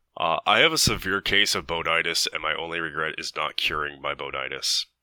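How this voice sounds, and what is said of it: Imitates another person's voice. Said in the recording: “my best Kevin imitation”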